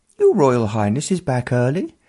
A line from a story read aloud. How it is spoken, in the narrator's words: one of the equerries piped up